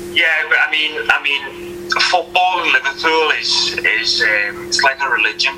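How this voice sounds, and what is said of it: Liverpool accent. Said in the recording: “I love your Liverpool accent; it's absolutely fantastic”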